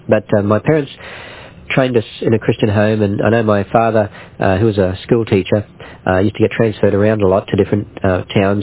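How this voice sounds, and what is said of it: Australian accent. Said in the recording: “there's very few Christians in Australia, really, and that's where I come from, if you can tell from the accent.”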